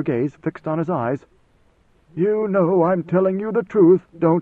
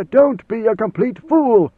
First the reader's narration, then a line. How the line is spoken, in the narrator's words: he snapped